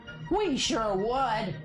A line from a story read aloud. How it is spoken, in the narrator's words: he yelled back